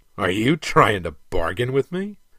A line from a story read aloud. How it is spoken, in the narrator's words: Kaesan snorted with amusement